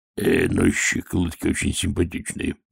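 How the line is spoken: Muttered. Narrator (Russian): пробормотал

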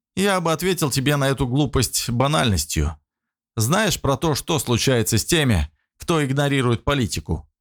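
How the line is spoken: Wry grunt. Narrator (Russian): хмыкнул дядя

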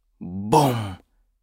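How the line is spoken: Whispered. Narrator (Russian): прошептал он

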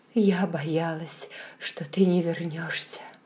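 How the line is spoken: Whisper. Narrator (Russian): прошептала

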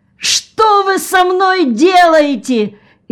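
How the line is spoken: Yelling at full force. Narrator (Russian): изо всех сил заорал Джон

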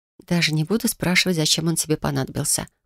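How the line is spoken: Whisper. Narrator (Russian): прошептала я

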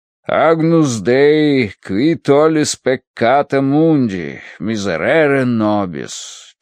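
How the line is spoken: Chanting. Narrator (Russian): читал нараспев отец Рош

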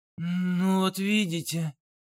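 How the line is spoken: Breathless exhale. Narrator (Russian): выдохнул Олег

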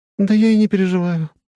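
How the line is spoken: Sigh. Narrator (Russian): вздохнула Габи

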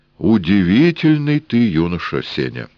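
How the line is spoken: Solemn. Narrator (Russian): торжественно сказал Эраст Петрович

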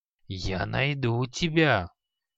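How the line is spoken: Angry grumble. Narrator (Russian): Зло проворчал Халай

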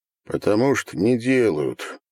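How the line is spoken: Gloomy. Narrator (Russian): мрачно ответил он

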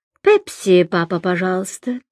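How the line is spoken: Polite, genteel tone. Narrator (Russian): сказал тот, что побольше, сравнительно светским тоном

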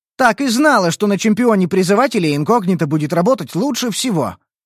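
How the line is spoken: Pleased exclamation. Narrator (Russian): воскликнула Эль довольно

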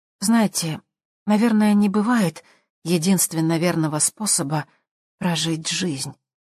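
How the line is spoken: Soft. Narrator (Russian): произнесла она мягко

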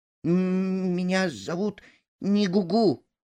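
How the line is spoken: Frightened reply. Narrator (Russian): испуганно ответил пойманный

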